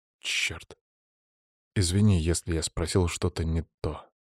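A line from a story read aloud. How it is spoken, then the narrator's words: Quiet. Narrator (Russian): тихо проговорил я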